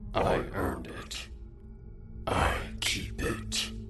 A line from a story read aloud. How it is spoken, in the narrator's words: he said in a short, raspy tone